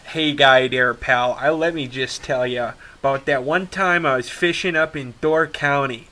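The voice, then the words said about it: Put-on Midwestern accent. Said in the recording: “you see that Midwestern accent right there?”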